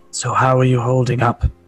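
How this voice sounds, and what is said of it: Feeble, weak character voice. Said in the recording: “in a somewhat feeble voice,”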